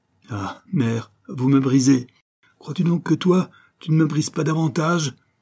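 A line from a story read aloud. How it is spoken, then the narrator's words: Desperate cry. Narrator (French): en un mouvement de désespoir effrayant, Jacques s'écria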